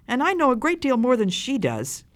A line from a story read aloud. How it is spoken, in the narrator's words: cried the first child